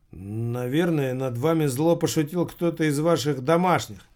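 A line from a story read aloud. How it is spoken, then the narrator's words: Quiet words in ear. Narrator (Russian): тихо сказал на ухо Томмазо Кампанелло журнал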